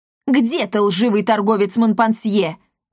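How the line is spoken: Yelling. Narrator (Russian): завопил Макласки

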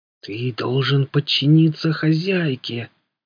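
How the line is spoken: Hissed reply. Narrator (Russian): прошипел он в ответ

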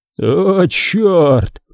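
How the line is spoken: Groan choking with laughter. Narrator (Russian): простонал он, захлебываясь от смеха

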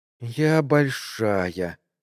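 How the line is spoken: Quiet drawl. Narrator (Russian): тихо протянула

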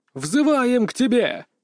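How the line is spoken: Group shout in unison. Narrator (Russian): дружно крикнули все остальные актеры

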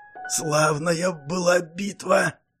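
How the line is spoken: Hoarse rasp. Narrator (Russian): прохрипел Санта

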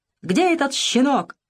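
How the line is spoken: Furious shouting. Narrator (Russian): разъяренно кричал Деревянко

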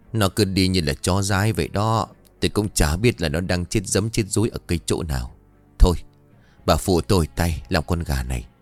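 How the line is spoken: Dejected sigh. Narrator (Vietnamese): Ông chú chán nản thở dài

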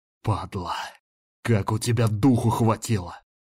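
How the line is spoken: Growling. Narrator (Russian): Рычал я

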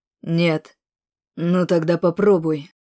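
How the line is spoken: Plain. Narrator (Russian): вновь сказал Макс

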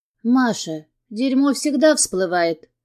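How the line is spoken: Calm. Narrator (Russian): спокойно говорит Яся

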